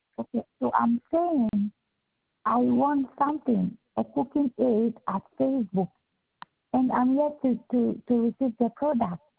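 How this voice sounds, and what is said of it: Low, fast speech with accent. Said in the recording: “Your voice, it sounds low. ... you're talking fast and you have an accent”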